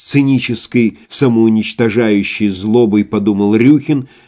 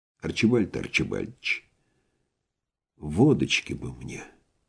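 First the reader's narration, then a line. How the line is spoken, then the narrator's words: Whispered. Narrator (Russian): шепнул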